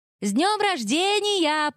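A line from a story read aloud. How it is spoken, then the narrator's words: Shouted. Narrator (Russian): прокричала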